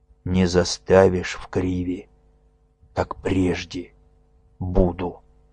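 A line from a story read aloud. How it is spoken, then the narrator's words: Hoarse. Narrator (Russian): Тимофей сказал хрипло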